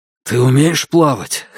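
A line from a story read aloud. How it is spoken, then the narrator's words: Hoarse question. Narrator (Russian): хрипло спросил Кай у Дайна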